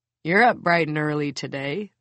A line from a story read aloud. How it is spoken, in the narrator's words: the caretaker chuckles